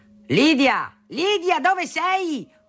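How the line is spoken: Father thundering. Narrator (Italian): tuonava mio padre

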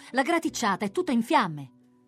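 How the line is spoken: Sudden shout. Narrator (Italian): A un tratto si grida

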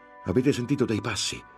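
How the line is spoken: Shout. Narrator (Italian): gridò Lorenzo

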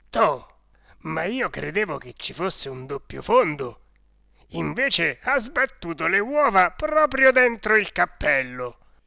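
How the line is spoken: Laughing exclamation. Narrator (Italian): si mise a ridere, esclamando

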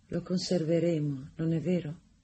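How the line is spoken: Sudden tender voice. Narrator (Italian): Improvvisamente, con una voce tenera, Rosanette disse

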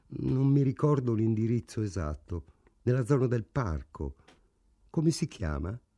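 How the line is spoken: Colorless voice. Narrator (Italian): Frank rispose con voce incolore

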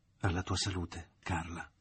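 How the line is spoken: Low intimate secretive voice. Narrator (Italian): disse la madre con voce bassa e intima, come se si fosse trattato di qualche segreto

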